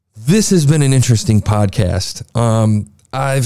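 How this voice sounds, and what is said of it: Usual voice. Nothing is said of it.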